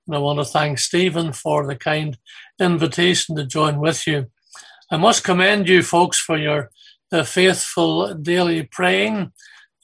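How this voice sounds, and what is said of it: Irish accent. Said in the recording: “I see you've got somebody from Ireland too. I hope you can understand my accent”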